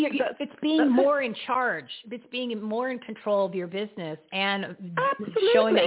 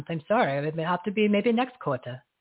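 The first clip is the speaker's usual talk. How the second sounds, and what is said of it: Put-on English accent. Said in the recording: “That's my English accent. I tried to do that. ... It sounded wonderful. It sounded wonderful”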